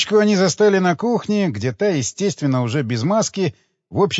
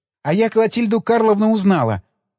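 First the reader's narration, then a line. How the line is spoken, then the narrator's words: Joyful announcement, young woman. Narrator (Russian): радостно объявила девушка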